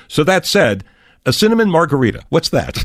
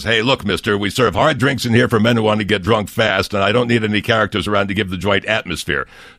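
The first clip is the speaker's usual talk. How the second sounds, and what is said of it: Imitates another person's voice. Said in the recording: “great impression that was... There's a big call for Sheldon Leonard impersonators”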